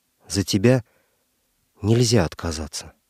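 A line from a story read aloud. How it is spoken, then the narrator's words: Whisper. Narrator (Russian): Она шепотом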